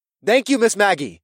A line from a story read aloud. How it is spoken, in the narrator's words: said in an equally loud voice